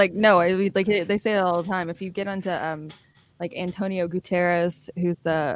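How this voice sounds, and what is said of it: Usual voice. Nothing is said of it.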